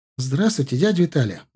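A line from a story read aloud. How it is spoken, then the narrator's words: Cheerful greeting. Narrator (Russian): бодро поприветствовала его Карина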